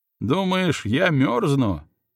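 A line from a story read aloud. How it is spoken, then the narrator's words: Laughing loudly. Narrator (Russian): расхохотался князь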